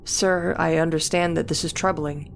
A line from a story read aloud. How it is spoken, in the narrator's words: the officer replied